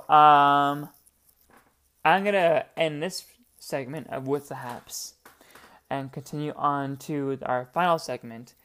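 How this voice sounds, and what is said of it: Hoarse, sore voice. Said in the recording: “I am hoarse as a pony ... my voice is so sore”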